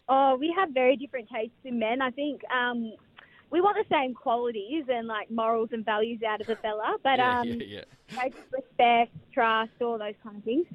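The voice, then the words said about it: Broad Australian Bogan accent. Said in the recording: “my Bogan accent”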